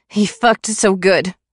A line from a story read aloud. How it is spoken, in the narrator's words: I said behind his palm and laughed through tears